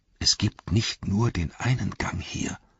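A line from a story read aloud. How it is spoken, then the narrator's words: Strained whisper. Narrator (German): flüsterte er mit Mühe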